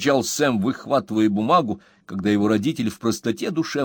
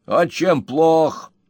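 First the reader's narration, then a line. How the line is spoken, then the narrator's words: Angry inquiry. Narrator (Russian): осведомился мистер Уэллер, сердито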